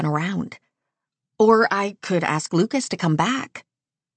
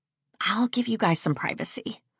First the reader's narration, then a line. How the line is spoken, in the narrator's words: I murmur